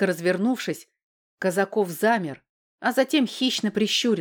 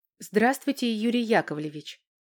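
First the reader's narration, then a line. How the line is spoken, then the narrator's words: Quiet. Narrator (Russian): тихо сказала Валька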